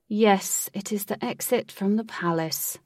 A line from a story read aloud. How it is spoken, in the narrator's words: said Wraith in a pained voice